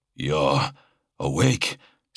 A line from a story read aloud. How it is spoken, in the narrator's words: Sirion breathed